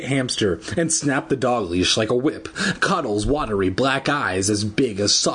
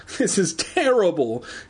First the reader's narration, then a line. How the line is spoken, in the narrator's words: She cried, terrible